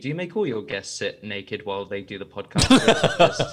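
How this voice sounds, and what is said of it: Speaks with a natural accent. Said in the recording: “now you've got my accent”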